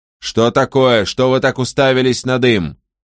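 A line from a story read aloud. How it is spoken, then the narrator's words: Angry yelling. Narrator (Russian): злобно вопил Каприкорн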